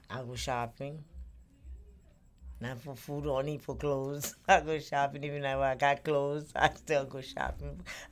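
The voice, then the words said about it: Noticeable non-native accent. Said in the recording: “you could tell my accent ... I still got my accent. It's not as bad as some of them, but I still got it.”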